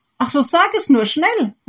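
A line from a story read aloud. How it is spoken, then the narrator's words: Happy farmer calling out. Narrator (German): rief der glückliche Bauer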